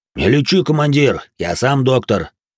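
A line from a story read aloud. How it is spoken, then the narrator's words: Deep bass voice. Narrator (Russian): пробасил Толя Грохот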